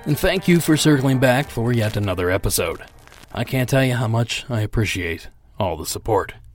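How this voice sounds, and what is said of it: Sick, weakened voice from a cold. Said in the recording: “As you may or may not be able to tell by my voice, I'm still fighting this cold ... saving what little voice I have left”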